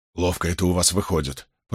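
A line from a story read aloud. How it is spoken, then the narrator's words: Grumbled. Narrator (Russian): пробурчал Доман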